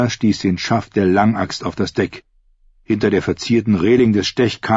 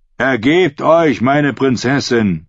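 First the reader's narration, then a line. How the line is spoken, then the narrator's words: Captain calling out. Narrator (German): rief der Hauptmann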